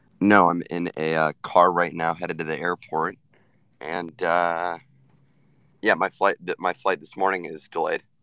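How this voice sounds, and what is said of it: Hoarse, fading voice. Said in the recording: “you sound like you drank a lot of beer ... My voice is gone ... my voice is disappearing”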